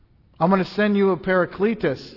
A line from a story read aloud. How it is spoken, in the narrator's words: said